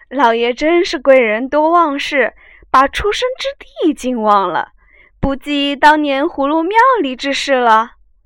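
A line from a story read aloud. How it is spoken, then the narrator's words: Laughing. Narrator (Chinese): 那门子笑道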